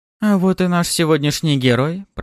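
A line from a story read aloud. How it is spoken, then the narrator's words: Cooing. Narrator (Russian): проворковала суккуба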